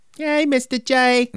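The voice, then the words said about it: Imitates a cartoon character's voice. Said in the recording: “That was a good impression.”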